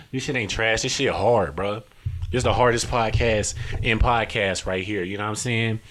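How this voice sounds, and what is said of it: Put-on Detroit accent. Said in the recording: “why am I talking like a nigga from Detroit? ... I ain't even from Detroit.”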